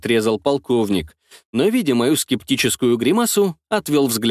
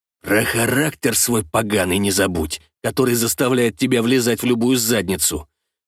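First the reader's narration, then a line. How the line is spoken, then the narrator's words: Grumbling. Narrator (Russian): проворчал Игорь Игоревич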